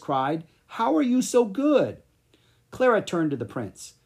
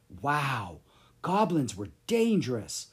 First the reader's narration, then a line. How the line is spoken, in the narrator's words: Clara whispered to Lucas